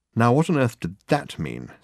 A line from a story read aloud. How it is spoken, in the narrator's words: said Dirk, irritably